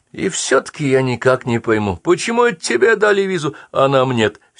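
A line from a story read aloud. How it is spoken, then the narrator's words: Continual whining. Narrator (Russian): все скулил Эйхман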